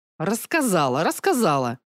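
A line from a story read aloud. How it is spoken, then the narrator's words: Irritated mutter. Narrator (Russian): Также раздраженно буркнула Зея Нир, правая рука главаря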